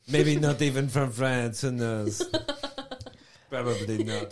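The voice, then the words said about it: Fake French accent. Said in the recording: “What is this accent? ... A German person doing a French accent.”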